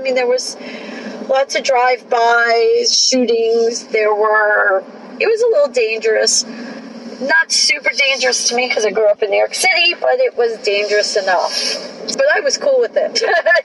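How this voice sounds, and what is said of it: New York accent. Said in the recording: “our listeners might detect a New York accent there.”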